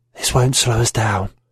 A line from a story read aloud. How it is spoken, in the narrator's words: She smiled, a red evil crescent, and whispered